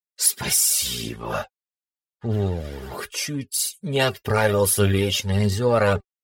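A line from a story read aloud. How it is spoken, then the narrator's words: Breathless relief, snake-man. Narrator (Russian): выдохнул змеилюд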